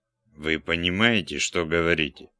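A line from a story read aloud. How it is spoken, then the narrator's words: Plain. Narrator (Russian): спросил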